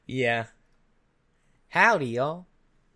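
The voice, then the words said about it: Put-on Southern accent. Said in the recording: “you have to get a lot stronger Southern accent”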